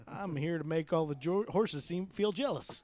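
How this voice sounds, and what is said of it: Imitates another person's voice. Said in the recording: “that was a bad cowboy or a bad Ron Jeremy impression I just did”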